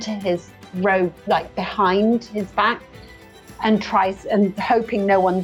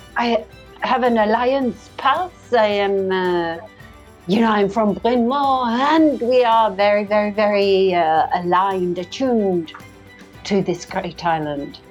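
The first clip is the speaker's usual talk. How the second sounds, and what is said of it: Put-on character accent. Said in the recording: “I like how you talk. That's a nice accent.”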